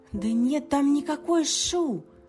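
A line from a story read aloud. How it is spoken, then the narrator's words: Desperate breathless exclamation. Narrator (Russian): В отчаянии воскликнула запыхавшаяся Алиса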